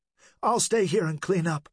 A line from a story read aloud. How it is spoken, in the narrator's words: she replied, nervously